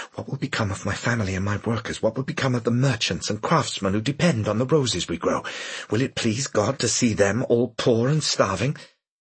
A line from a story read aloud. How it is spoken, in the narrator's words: The gunman answered, and Malcolm leaned close to hear Parker's whisper